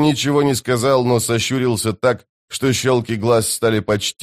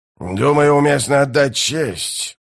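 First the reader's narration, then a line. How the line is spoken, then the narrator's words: Growl. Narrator (Russian): прорычал Бальт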